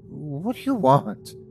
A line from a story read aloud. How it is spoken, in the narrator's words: stuttered back